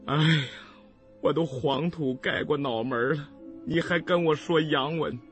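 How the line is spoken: Sighing. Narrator (Chinese): 我叹了口气说道

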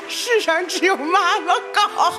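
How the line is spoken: Crying. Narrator (Chinese): 跟贾志新在那儿哭

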